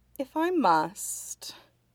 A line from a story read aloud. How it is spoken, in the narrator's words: Huaisong said with a sigh